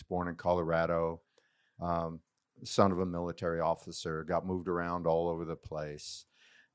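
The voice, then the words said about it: American accent. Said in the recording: “from my accent, you can tell I'm from the States”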